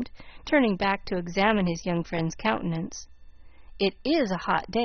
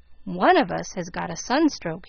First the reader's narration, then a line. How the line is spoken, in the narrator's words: he exclaimed